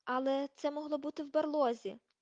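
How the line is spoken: Loud exclamation. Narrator (Ukrainian): голосно вигукнув Рон

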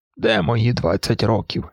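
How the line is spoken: Said sadly, smiling. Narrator (Ukrainian): сказав Моргер, сумно посміхаючись

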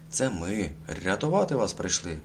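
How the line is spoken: Exclaimed. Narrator (Ukrainian): вигукнув Калько

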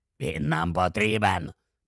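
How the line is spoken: Hoarse rasp. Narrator (Ukrainian): прохрипів Грибхук

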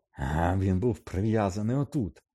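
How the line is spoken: Furious bark. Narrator (Ukrainian): розлючено гаркнув Кат

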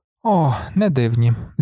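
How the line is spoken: Sighing with sinking dread. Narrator (Ukrainian): зітхнув Грегор, відчуваючи, як у животі в нього щось раптом ніби опустилося

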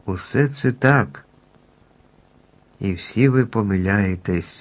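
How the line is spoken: Stranger speaking gently. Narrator (Ukrainian): лагідно мовив незнайомець

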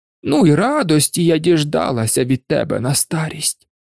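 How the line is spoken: Sorrowful sigh. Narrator (Ukrainian): скрушно зітхнула тітка

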